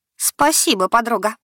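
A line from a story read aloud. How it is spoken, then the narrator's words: Snorting. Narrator (Russian): хмыкнула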